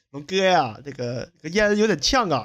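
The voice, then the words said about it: Imitated Fujian accent. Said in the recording (Chinese): “那个福建那小伙儿...就是那个口音，你知道”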